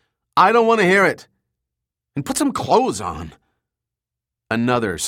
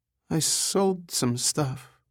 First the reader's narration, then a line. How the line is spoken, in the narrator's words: she said in a timid voice